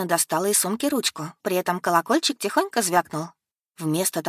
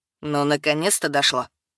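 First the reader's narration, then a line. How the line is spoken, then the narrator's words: Gruff mutter. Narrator (Russian): буркнул он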